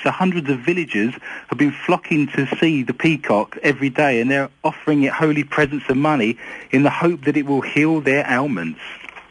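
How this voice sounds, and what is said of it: Thick English accent. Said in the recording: “The English accent is thick ... my English accent”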